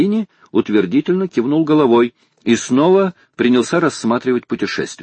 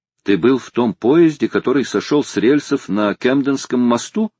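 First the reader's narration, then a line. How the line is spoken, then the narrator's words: Plain. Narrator (Russian): спросил Гленнерван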